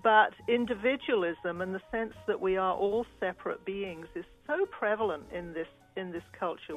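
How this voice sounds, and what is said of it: Non-American accent. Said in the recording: “I'm a non-American. Your listeners probably know that because of my accent.”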